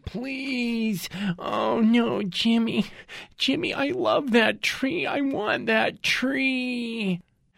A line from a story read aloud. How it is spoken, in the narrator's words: His girlfriend, a large person ... is wailing